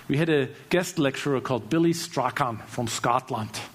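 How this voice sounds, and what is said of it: Poor put-on Scottish accent. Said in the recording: “That's my attempt at a Scottish accent. I know, horrible. I have a German guy trying a Scottish accent.”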